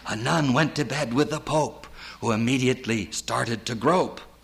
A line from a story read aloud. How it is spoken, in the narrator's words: Culp whispers, as if imparting a secret